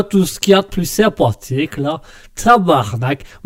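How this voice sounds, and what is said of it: Put-on Québécois French accent, inconsistent. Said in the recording (French): “J'ai le début de l'accent, mais j'arrive pas à garder la prononciation jusqu'au bout ... C'était quoi, ça L'accent québécois”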